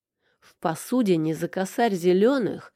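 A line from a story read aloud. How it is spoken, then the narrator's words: Exhausted growl. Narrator (Russian): зарычал, чувствуя, что еще немного, и мои силы закончатся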